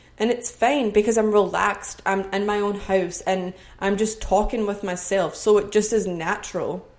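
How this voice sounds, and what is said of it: Scottish accent. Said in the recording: “I would have my true Scottish accent on here”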